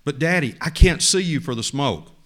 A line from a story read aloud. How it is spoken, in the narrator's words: the little boy cried out